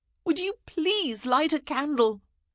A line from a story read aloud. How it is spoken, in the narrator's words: she wailed